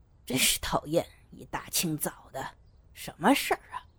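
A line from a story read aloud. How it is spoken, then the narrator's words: Inward grumbling mutter. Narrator (Chinese): 明雄心里嘀咕着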